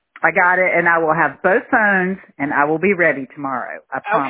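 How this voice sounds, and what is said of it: Southern US accent. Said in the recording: “crazy woman from South Carolina again. We can tell by that accent.”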